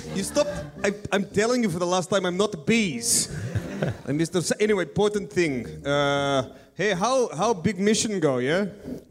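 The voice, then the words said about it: Offensive put-on character accent. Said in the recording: “accent that is very offensive to Ben's wife and Ben's wife's family”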